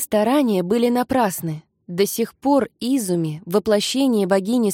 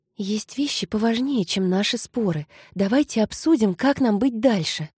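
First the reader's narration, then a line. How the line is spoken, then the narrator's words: Whisper. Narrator (Russian): прошептала Кари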